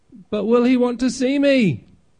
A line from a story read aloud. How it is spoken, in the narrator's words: Punchinello cried out